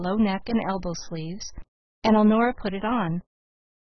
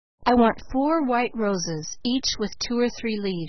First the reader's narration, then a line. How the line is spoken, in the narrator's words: she cried